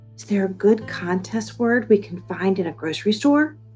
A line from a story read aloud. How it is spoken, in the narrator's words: Nate leaned my way to whisper